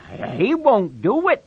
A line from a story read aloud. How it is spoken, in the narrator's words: Lenny cried